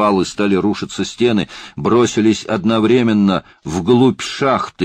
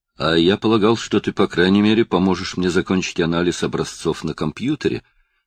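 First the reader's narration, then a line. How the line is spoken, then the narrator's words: Gloomy remark. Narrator (Russian): мрачно заметил Пью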